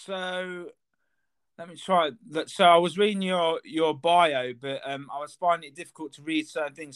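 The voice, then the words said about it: Leicester English accent. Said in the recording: “I'm from Leicester. ... I can kind of hear that in the accent. ... It's not hard, is it?”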